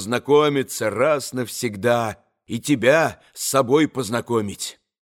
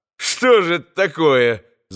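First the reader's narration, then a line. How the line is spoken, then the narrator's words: Laughing. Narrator (Russian): засмеялся Иван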